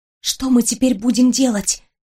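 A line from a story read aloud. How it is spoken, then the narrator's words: Whispered question. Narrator (Russian): шепотом спросила я Уйму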